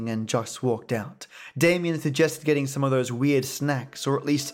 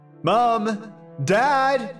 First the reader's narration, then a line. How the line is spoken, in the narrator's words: shouted